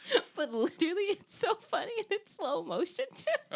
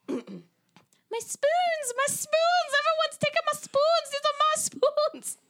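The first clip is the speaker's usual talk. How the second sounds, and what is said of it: Attempted Irish accent. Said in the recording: “That was my attempt at an Irish accent.”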